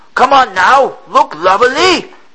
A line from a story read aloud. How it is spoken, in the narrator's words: a sailor yelled in French